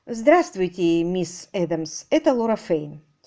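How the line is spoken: Plain. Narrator (Russian): сказала Лора

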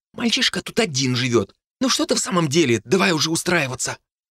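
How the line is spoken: Fading mutter. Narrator (Russian): Ее бормотание осталось позади и постепенно затихло

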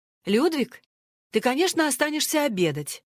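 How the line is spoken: Cheerful, matter-of-fact. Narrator (Russian): сказала она весело, как нечто само собой разумеющееся

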